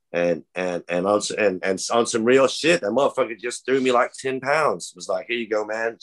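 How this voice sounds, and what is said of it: Alabama Southern accent. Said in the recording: “my Alabama accent”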